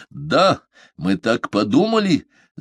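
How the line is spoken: Angry shout. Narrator (Russian): злобно закричал он

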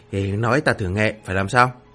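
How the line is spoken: Murmured whispered question. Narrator (Vietnamese): châu đầu ghé tai lẩm bẩm, Miêu Nghị hỏi thăm

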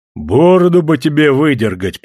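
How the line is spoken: Deep bass voice. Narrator (Russian): пробасил Овчинников

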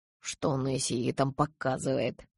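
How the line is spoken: Low mutter. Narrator (Russian): пробурчал он вполголоса

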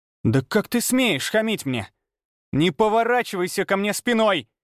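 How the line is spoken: Hysterical yelling. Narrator (Russian): Истерично завопила Виола

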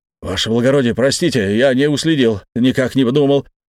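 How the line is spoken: Rapid patter. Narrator (Russian): протараторил капелюш

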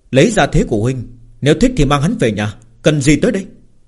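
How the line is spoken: Amused, smiling. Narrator (Vietnamese): Lâm Phàm nhìn dáng vẻ si mê của Yêu Vô Tà, mỉm cười nói

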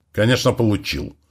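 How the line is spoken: Irritated, barely suppressed anger. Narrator (Russian): раздраженно ответил американский лидер, едва сдерживая гнев

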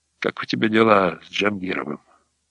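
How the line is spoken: Quiet question. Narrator (Russian): Сашка спросил негромко

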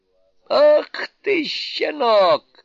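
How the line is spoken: Laughing shout. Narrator (Russian): крикнул, смеясь, царь обезьян

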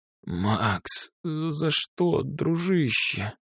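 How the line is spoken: Wheezing. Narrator (Russian): просипел Косой

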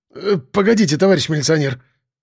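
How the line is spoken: Babbling. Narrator (Russian): лепетал замдиректора

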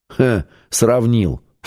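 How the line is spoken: Scoffing snort. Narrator (Russian): фыркнул Семен

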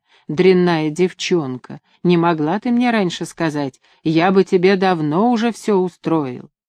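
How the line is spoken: Whispering across a table. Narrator (Russian): Через стол шептал

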